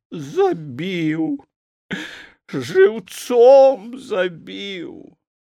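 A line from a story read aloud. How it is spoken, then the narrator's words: Drunken-sounding wailing. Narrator (Belarusian): як п'яная, скуголіла і толькі прыгаворвала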